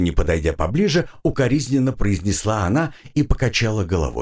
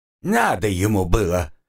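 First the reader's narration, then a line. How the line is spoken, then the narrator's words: Indignant. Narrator (Russian): возмутилась работница ЖЭКа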